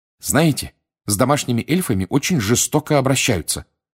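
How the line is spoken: Indignant. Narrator (Russian): возмущенно произнесла Гермиона

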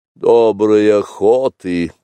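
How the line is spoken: Grumbling. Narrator (Russian): проворчал, наконец, Каа

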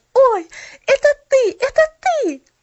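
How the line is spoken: Exclaiming. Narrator (Russian): воскликнула она

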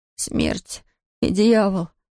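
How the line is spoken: Shuddering mutter. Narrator (Russian): пробормотал он и содрогнулся

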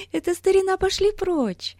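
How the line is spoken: Cheerful whisper. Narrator (Russian): весело прошептала Дейзи

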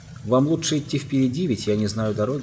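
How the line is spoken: Plain. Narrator (Russian): сказала Джилл

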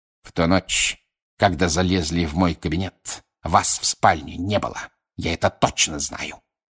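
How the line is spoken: Hiss. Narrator (Russian): прошипел Снег

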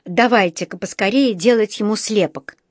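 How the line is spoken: Angry puffing. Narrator (Russian): сказал он, сердито пыхтя

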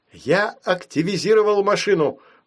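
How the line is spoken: Excited shout. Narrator (Russian): взволнованно крикнул папа

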